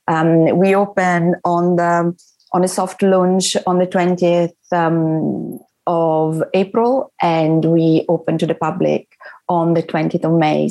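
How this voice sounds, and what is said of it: Italian accent. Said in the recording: “your beautiful Italian accent ... I cannot shift his Italian accent”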